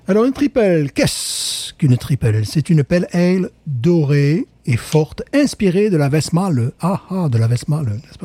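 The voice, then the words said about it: Weak attempt at Flemish accent. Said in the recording (French): “J'essaie de prendre un accent flamand, moi j'y arrive pas, je sais bien”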